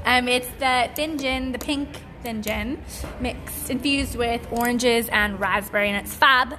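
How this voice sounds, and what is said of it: Accent with unusual pronunciation. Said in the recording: “you pronounce it funny ... It's my accent”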